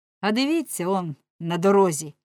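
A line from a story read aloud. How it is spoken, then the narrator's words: Plain. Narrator (Ukrainian): відповів Оленшпігель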